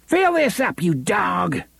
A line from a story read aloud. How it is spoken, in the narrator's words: he shouted